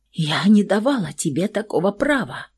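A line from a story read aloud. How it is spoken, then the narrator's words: Hoarse whisper. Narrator (Russian): Хриплым шепотом повторила она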